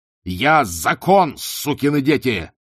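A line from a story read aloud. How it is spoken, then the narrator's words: Yelling. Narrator (Russian): заорал он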